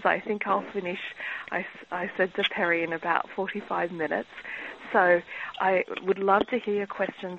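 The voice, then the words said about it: Australian accent. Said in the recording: “as you can hear from my accent, I'm originally from Australia”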